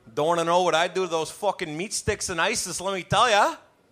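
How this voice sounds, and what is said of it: Exaggerated Canadian hick accent. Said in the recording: “ham up the whole Canadian polite stereotype, you know, and throw in a big hick accent.”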